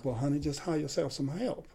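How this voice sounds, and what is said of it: Imitated Southern accent, older woman. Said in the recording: “in a southern accent that I can't do justice to ... that was pretty good”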